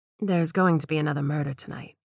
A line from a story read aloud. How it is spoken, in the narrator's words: Gladys answered calmly